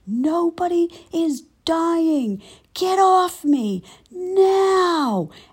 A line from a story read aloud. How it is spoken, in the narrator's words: yelled from the bottom of the pile